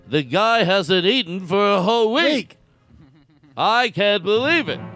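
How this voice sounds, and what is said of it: Poor Regis Philbin impression. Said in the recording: “my impersonations are so bad that I have to repeat who I'm doing to get people to even believe Regis Philbin I'm doing, of course.”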